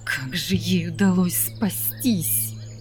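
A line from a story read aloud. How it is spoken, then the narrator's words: Angry hiss. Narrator (Russian): Гневно прошипела императрица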